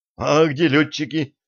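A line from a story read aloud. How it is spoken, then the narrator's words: Confused, bewildered question. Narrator (Russian): Еще не совсем осознавая, что произошло, растерянно спросил Артем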